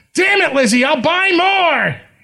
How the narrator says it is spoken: he shouts

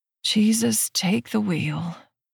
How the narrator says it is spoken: I groan

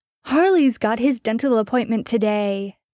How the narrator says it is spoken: Jared exclaimed, sighing with relief

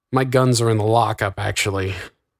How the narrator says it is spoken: Augustus sighed

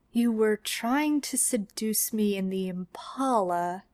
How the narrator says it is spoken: Sam said slowly

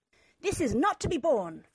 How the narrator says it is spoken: Father shouted

